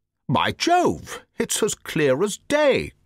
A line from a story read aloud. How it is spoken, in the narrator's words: cried the Colonel